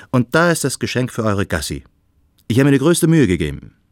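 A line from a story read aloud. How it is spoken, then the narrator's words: Cheerful call. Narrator (German): rief Freund Adrian aufgeräumt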